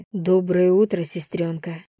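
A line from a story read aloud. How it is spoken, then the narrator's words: Grumbling mutter. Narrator (Russian): буркнул я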